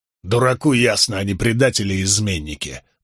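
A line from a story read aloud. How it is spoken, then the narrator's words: Grumbling soldier. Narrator (Russian): проворчал один из солдат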